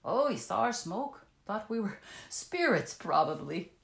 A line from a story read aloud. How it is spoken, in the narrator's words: laughed